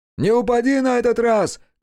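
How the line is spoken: Shout. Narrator (Russian): крикнул ему Хаяси

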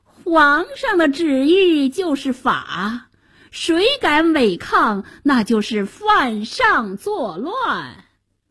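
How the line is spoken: Sinister sly laugh. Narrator (Chinese): 白脸宰相奸笑着

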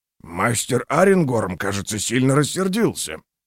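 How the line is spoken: Low voice remark. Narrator (Russian): вполголоса заметил Карнсбиг

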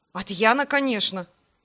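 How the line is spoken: Scornful snort. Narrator (Russian): фыркнул

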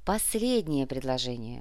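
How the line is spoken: Sighing. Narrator (Russian): вздохнул Андрей

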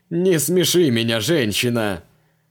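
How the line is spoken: Roaring with laughter. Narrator (Russian): Закатился в хохоте Креол

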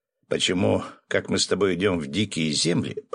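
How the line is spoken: Grumbling. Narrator (Russian): проворчал Феникс

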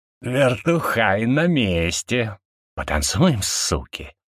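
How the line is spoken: Hissing. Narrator (Russian): прошипел я

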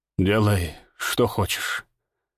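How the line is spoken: Strained, hoarse voice. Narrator (Russian): выдавил севшим голосом

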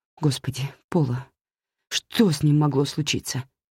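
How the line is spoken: Trembling voice. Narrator (Russian): дрожащим голосом спросила я

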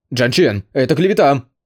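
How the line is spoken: Shouting. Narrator (Russian): закричал Ли Юань с извинившимся цветом лица

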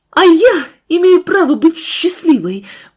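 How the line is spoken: Shouted. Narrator (Russian): Марина выкрикнула

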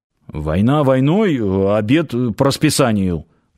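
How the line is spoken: Man's grumbled reply. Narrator (Russian): пробурчал в ответ мужчина

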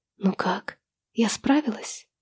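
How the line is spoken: Quiet question. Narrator (Russian): тихо спрашиваю я

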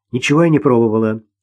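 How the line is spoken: Irritated. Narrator (Russian): раздраженно сказала Ирина

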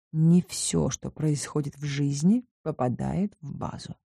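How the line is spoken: Quiet reply. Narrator (Russian): так же тихо ответил я

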